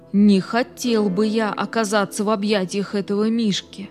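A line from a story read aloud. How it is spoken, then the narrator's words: Relieved mumble after sigh. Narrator (Russian): Глубоко вздохнув с облегчением, он пробормотал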